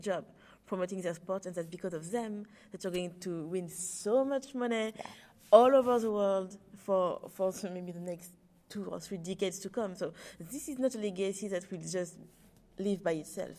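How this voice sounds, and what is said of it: French accent. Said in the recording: “My French accent is all over the place.”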